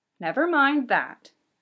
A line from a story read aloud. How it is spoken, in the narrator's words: Miss Washington says firmly